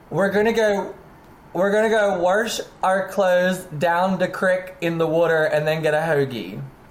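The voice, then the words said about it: Maryland accent. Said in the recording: “where are you from that you do have an accent? ... I'm from Maryland.”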